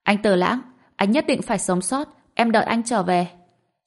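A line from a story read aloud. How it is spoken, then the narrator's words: Loud shouting. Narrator (Vietnamese): Dương Sảo tiếp tục hét lớn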